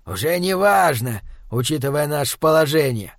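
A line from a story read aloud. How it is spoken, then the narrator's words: Irritated grumble. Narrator (Russian): раздраженно буркнул демон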